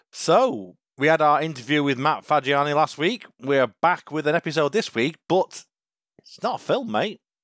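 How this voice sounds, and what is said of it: Croaky voice. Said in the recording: “my voice is a little bit croaky for some reason today”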